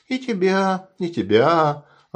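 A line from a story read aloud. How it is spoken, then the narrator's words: Joyful chiming in. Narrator (Russian): Радостно подхватывает Люся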